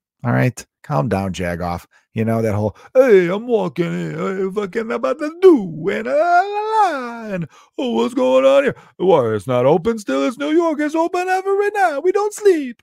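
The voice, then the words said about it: Put-on Italian New Yorker accent. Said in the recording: “mix of an Italian accent.”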